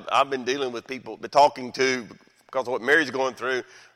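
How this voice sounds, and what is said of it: Southern American accent. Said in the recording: “I guess it's that southern accent”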